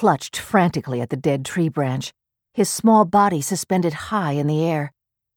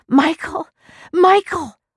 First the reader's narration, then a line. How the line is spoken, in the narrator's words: her voice a thin, piercing wail